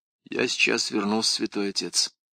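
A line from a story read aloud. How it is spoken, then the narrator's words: Mutter. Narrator (Russian): пробормотала Крис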